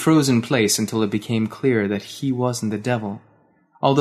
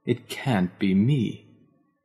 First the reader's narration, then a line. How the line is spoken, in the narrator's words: he groaned